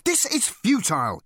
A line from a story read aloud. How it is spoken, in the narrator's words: he exclaimed